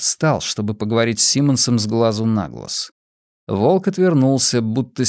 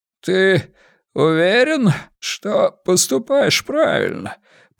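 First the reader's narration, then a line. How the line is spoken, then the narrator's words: Hoarse rasp. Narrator (Russian): прохрипел мэр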